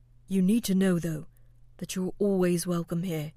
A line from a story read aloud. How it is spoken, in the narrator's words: the captain added, closing his eyes with a sigh